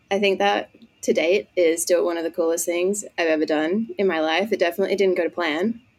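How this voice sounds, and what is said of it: Australian accent. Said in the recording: “judging from the accent, ... I am from Australia”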